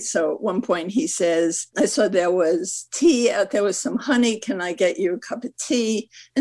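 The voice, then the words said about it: Scratchy voice. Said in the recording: “you can tell my voice is always scratchy”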